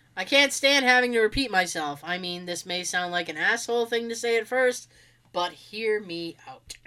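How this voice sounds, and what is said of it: Congested, stuffed-up voice. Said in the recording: “I sound stuffed up. ... like my tone of voice has completely changed.”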